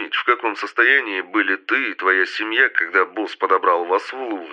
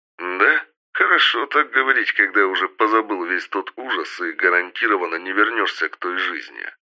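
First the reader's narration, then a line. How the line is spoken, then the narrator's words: Plain. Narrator (Russian): ответил Камиль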